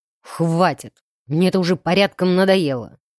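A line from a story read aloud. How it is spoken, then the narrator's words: Near growl. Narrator (Russian): Едва не рычал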